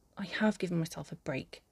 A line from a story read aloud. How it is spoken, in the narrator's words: he snaps